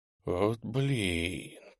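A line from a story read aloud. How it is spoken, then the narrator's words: Whisper. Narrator (Russian): прошептал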